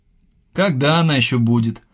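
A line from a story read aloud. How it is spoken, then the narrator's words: Sighing. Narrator (Russian): вздохнул Алексей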